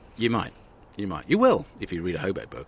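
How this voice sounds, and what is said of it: Advertising voice. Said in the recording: “I was doing it in my advertising voice. Sort of a mix of Robert Dawes and Martin Jarvis.”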